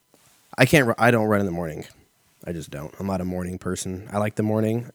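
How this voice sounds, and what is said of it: Strained, hoarse voice. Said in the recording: “I'm already losing my voice”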